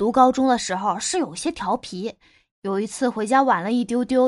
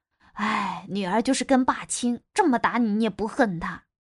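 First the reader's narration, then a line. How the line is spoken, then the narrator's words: Sighing remark. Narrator (Chinese): 我妈又感叹了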